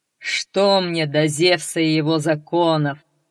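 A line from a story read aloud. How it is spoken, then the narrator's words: Giant laughing. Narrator (Russian): засмеялся великан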